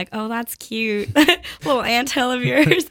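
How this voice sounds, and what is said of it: Put-on Southern accent. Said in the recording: “I don't know why I gave them a southern accent.”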